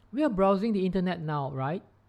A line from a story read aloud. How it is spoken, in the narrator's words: said Tim